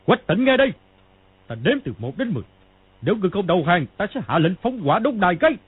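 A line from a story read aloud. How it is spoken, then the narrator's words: Old man's loud shout. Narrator (Vietnamese): Lão quát to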